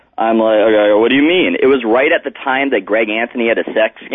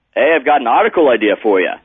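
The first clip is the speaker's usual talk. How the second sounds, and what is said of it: Put-on Australian accent. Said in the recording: “That's how he sounds like in my head. I'm not sure if that's a good Australian accent.”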